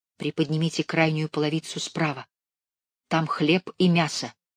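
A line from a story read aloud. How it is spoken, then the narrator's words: Whisper. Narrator (Russian): прошептали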